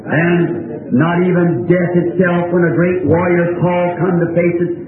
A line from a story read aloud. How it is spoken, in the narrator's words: he screamed